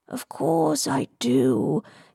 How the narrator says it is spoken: purred

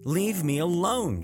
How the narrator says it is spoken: yelled

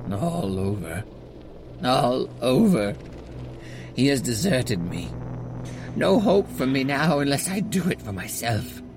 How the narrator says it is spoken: looked very sad, and said in a sort of faraway voice, as though saying it rather to himself than to me

